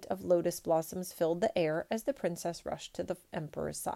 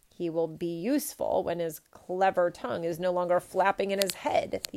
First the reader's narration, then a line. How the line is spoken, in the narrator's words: the emperor snapped